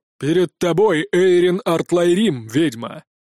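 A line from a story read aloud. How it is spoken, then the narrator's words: Loud. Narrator (Russian): громко произнес Вайрон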